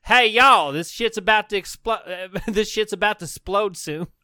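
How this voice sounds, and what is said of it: Put-on southern Texas accent. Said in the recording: “Talks like a guy from middle Texas. ... speaks like a southern debonair and also has a Texas accent.”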